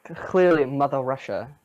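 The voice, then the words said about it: Weak attempt at Russian accent. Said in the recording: “Is that a Russian accent you just tried to do? ... I tried ... it didn't even sound like”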